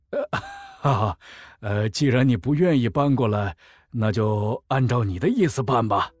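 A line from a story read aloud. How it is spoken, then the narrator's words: Awkward, disappointed laugh. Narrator (Chinese): 唐世傲内心一阵失落，尴尬的笑了笑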